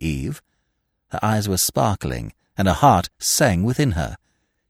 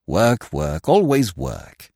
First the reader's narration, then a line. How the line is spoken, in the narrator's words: sighed Smith